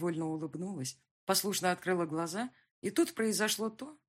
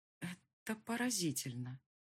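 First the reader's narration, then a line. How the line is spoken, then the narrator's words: Quiet. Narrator (Russian): сказала я тихо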